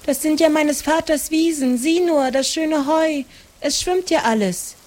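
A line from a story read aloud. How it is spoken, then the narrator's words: Called out. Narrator (German): rief Maren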